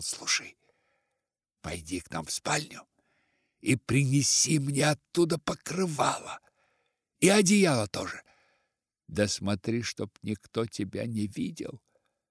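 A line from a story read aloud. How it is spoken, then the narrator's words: Whisper. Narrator (Russian): прошептал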